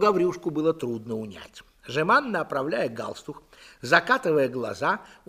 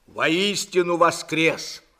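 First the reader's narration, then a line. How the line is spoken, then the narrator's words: Barking. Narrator (Russian): рявкнул Длугач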